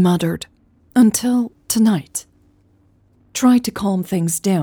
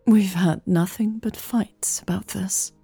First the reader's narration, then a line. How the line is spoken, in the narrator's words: said quietly